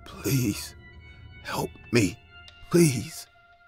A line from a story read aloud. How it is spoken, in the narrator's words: He said in a broken voice